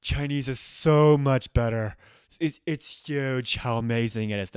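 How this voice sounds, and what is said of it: Imitates another person's voice. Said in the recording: “my Donald Trump impression”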